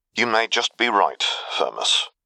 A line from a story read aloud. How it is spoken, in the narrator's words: he muttered